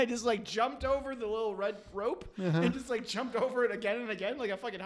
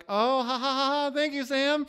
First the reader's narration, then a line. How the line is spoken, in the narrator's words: that polite laugh